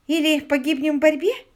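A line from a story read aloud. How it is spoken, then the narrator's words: Laughing answer. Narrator (Russian): смеясь, ответила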